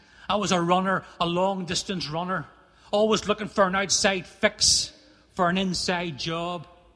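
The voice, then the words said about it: Northern Irish accent. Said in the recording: “Irish accent”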